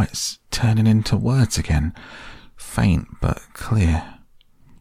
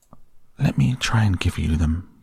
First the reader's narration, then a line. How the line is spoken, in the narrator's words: said the rat softly